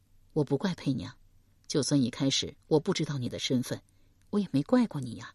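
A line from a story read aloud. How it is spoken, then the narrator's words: Gentle. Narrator (Chinese): 邓毅柔声道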